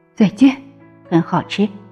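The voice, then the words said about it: Soft whispered voice. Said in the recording (Chinese): “霸王龙小声的说着”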